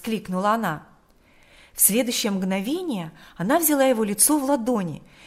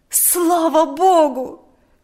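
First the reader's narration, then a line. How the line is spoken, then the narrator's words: Exclaimed. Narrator (Russian): воскликнула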